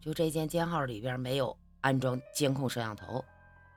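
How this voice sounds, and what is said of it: Very low, hushed voice. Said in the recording (Chinese): “用极低的声音说道”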